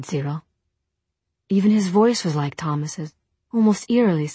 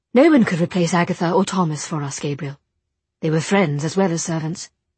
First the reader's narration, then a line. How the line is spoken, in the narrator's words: Jem said quickly